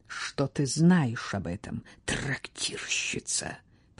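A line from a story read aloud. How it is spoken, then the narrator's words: Hissed reply. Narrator (Russian): прошипела та в ответ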